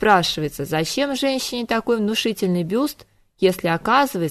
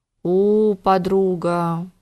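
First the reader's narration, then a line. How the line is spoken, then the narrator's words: Puzzled drawl. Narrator (Russian): протянула озадаченная Дана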